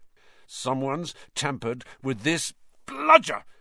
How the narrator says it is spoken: Fred grunted, swinging his bat with all his might

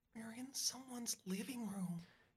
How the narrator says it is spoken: Katie whispers

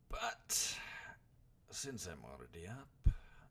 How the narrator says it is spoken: grunted the bandit

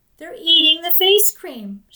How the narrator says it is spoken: had exclaimed

